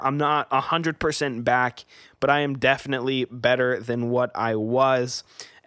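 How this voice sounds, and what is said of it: Slightly sick, recovering voice. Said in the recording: “I was kind of sick. This week, you can probably hear in my voice, it's a little bit better ... I do still have a cough ... my throat, I don't know, man, it's just itchy”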